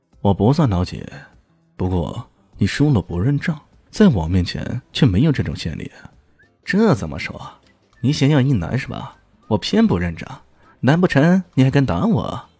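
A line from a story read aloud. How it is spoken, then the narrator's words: Cold sneering laugh. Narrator (Chinese): 李炫冷冷一笑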